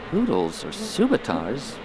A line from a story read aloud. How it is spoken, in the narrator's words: Barriss asked softly